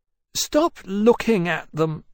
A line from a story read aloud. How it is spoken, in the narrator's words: Poseidon said irritably